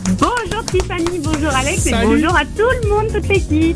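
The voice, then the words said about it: Picard regional French accent. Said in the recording (French): “avec l'accent picard”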